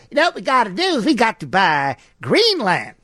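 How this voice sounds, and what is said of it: Imitates another person's voice. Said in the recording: “That's my Truman impression.”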